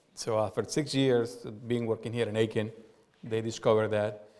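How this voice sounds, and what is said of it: Strong non-native English accent. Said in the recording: “English is my second language, as you probably noticed by my pronunciation ... you have a strong accent”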